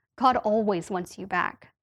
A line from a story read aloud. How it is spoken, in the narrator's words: the preacher said